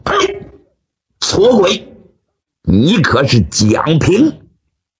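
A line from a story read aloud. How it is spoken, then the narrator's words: Loud shout. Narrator (Chinese): 高声喝喊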